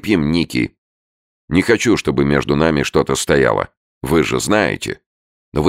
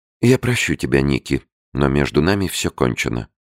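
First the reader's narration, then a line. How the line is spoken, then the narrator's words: Soft. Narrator (Russian): мягко сказала она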